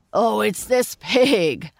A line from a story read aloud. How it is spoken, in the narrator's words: laughed the farmer